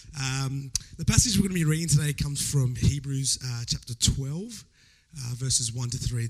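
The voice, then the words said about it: Hoarse, weak voice from illness. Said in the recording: “you're going to have to excuse me for my voice... I've been actually sick and I lost my voice, but praise God, I got a little bit”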